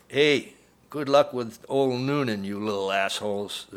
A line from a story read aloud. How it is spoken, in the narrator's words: the driver said, and he and a male passenger in the cab cackled with laughter